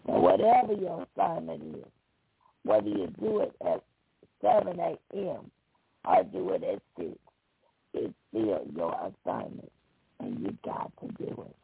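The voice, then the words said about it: Hoarse voice. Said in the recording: “listening in to me with my hoarse voice this morning”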